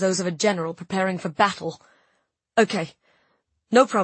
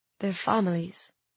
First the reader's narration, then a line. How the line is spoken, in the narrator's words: said Mira softly